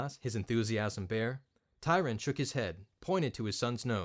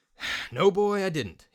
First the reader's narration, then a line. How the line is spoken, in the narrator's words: he sighed